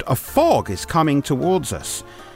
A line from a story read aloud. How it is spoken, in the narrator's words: Major Nails exclaimed